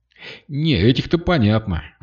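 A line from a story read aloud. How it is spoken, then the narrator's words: Sighing. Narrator (Russian): вздохнул Кирилл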